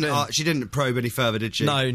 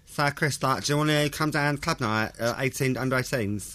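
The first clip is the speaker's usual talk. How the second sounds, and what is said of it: Imitates another person's voice. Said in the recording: “So imagine I'm Aoife right now. ... Good impression.”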